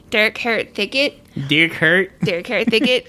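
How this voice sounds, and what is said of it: Lanark County accent. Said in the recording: “as I say in my Lanark County accent”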